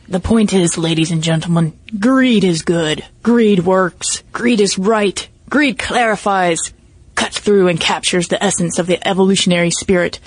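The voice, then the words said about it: Imitates another person's voice. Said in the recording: “do a Michael Douglas voice.”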